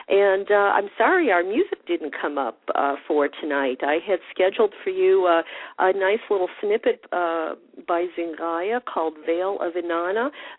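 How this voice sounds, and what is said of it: Voice still not back to normal. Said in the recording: “My voice is still not back to par yet as I'm battling this winter cold.”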